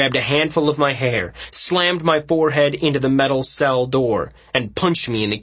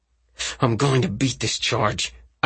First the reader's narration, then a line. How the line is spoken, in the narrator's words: I said through clenched teeth